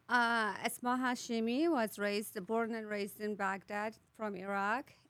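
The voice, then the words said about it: Speaks with a foreign accent. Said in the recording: “I already love that accent”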